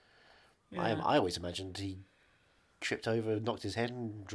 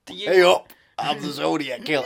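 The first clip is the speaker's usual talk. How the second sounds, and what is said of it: Put-on Yorkshire accent. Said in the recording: “I've got a Yorkshire accent now”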